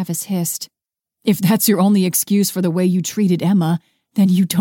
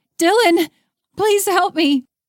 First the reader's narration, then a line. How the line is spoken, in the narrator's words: she cried